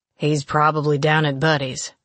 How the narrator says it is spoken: Melton grumbled

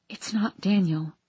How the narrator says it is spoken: I whispered

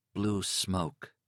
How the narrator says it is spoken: he muttered

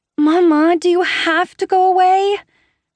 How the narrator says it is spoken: She whines

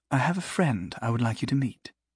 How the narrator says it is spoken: she said quietly

